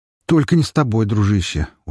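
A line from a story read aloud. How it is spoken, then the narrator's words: Tired snort. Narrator (Russian): устало фыркнул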